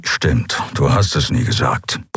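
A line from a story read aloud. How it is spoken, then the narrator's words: Grumbled. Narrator (German): brummte er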